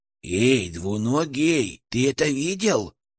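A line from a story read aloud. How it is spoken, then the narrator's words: Hissing inside one's head. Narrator (Russian): зашипел у меня в голове Ферк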